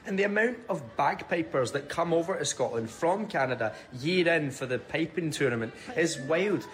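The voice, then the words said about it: Scottish accent. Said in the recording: “his accent is everything. Scottish.”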